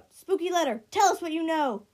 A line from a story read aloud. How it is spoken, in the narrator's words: he couldn't help but blurt out